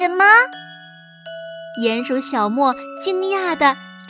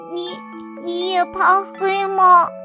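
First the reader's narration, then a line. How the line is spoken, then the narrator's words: Sobbing question. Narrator (Chinese): 一个声音呜咽着问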